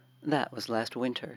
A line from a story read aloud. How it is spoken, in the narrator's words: said